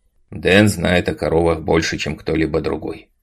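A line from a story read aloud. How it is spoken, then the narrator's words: Calm father replying. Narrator (Russian): спокойно ответил отец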